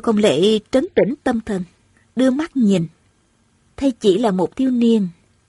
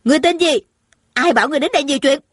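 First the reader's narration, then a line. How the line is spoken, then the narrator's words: Shrill scream. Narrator (Vietnamese): Tôn Trọng Quân thè thé hét lên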